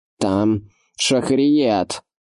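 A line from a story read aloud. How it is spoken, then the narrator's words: Shouted. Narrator (Russian): закричал Эразм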